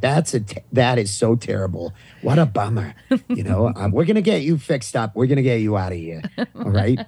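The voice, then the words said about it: Thick Maine accent. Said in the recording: “my thick Maine accent at the time”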